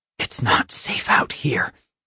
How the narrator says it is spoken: I whisper into her ear

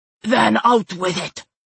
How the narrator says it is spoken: Sukru snapped

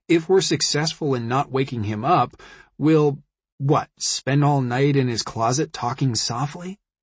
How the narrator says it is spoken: He chuckled a little

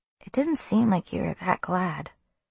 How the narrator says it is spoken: he said quietly

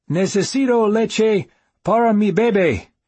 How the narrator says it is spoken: I shouted

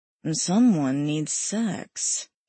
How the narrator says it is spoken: Alex muttered

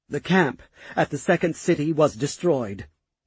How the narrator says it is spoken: Tarak spoke in a shaking voice

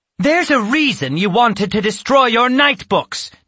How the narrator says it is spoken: Natasha exclaimed

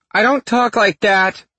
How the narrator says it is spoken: Mom hollers from the kitchen

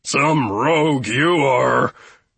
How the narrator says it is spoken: Gustav grunted at Poltro, who was poking him from underneath

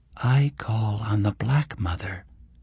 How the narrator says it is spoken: Eleanor said in a low voice

